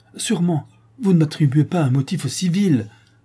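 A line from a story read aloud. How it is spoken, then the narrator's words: Exclaimed. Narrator (French): s'écria-t-il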